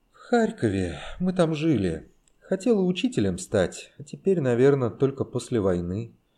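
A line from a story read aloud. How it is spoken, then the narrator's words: Sad. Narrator (Russian): грустно сказала она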